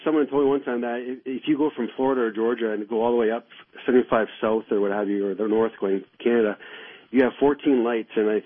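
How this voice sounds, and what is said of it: Canadian accent. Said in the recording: “I could listen to your Canadian accent all day.”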